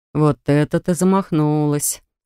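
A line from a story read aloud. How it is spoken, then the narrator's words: Chuckling wizard. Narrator (Russian): хохотнул чародей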